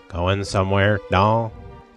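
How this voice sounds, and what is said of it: Imitates another person's voice. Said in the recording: “in my best Bogart voice”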